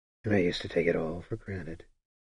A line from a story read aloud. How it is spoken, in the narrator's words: Sparrowhawk murmured